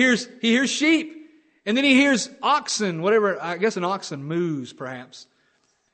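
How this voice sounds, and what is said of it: Usual voice. Nothing is said of it.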